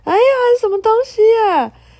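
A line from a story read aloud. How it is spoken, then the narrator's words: Pained scream. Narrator (Chinese): 库莫林痛苦的大叫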